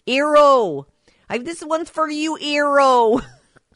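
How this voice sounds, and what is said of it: Imitated Minnesota accent. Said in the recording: “she has this kind of Minnesota thing going on ... Little accent's cute.”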